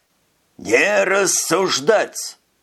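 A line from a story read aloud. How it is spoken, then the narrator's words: Furious yell. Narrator (Russian): завопил Скабет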